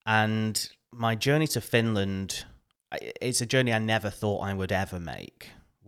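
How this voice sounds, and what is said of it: Northern English accent. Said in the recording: “I'm originally from the UK, if you can't tell from my accent, from the north of England.”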